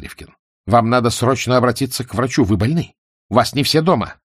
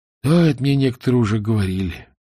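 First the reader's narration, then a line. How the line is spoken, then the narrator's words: Sad agreement. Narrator (Russian): печально согласился Фигурин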